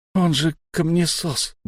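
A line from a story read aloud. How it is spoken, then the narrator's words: Gruff mutter. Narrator (Russian): буркнул Фари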